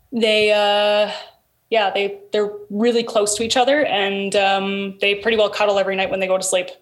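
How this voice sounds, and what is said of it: Canadian accent. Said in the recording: “Canadian accent ... It sounds like how you're talking right now.”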